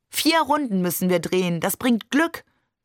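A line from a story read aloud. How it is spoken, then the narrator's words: Beaming, calling out. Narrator (German): rief er uns nur strahlend zu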